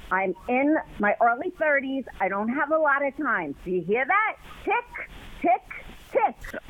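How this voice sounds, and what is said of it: Speaks with a noticeable accent. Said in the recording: “accent's kind of hot. ... her accent ... my accent”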